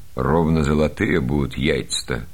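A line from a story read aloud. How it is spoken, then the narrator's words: Plain. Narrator (Russian): сказал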